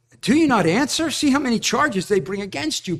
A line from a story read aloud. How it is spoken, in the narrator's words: Pilate exclaims in exasperation